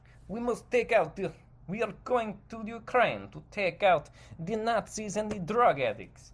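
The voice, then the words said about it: Put-on Russian accent. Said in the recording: “is this a Russian accent? What accent am I doing right now?”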